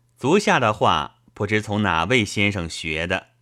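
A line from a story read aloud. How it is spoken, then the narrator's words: Plain. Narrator (Chinese): 鳕鱼道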